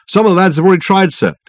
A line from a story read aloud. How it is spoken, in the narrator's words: the constable replied anxiously